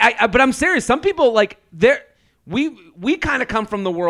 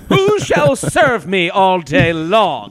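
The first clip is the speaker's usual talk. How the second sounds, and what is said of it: Put-on English accent. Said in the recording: “is in an English accent”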